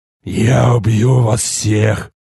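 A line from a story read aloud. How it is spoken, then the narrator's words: Hoarse roar. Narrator (Russian): хрипло проревел я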